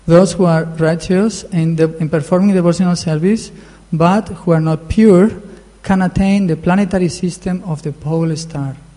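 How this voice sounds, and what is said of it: Noticeable non-native English accent. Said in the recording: “sorry for my accent, I know it's a bit horrible”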